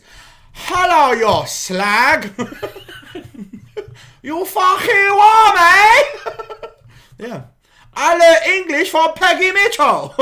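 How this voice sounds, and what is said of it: Chinese-Cockney mixed put-on accent. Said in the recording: “a Chinese man trying to do a Cockney accent, which originated, amalgamated into the best accent”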